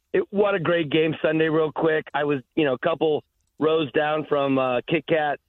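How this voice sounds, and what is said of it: Strained, mostly lost voice. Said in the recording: “My voice is kind of gone from Sunday”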